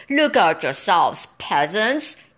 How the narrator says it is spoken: he bellowed

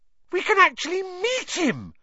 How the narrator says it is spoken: Hermione squealed

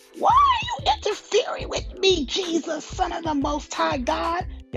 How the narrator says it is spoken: With a shriek, he screamed

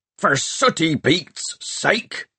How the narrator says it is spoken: shouted Peavy

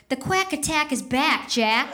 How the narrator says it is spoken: Averman, who momentarily got inches away from the two and shout whispered

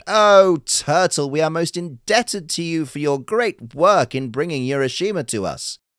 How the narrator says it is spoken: they also cried

